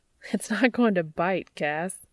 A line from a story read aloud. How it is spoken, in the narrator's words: Dean chuckles